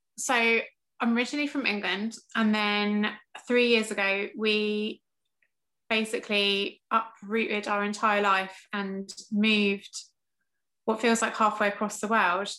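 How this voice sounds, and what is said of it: English accent. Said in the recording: “I'm obviously English, as you can tell from the lovely accent”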